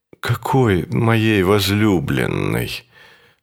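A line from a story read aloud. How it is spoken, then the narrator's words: Weak voice. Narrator (Russian): спросил он слабым голосом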